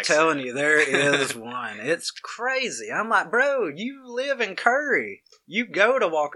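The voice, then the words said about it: Noticeable Southern US accent. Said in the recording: “of course you can hear my nasty accent, because I can't change it ... still with the southern accent”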